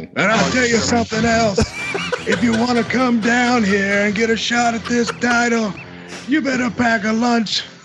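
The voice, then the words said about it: Put-on New York accent. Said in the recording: “I got a little New York there. I got to work on my impression.”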